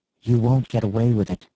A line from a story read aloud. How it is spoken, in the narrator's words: she told him again, calmly this time